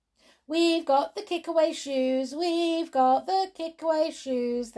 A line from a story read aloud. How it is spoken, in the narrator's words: they cried